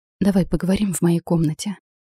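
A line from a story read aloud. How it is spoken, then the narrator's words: Whispered. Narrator (Russian): прошептала я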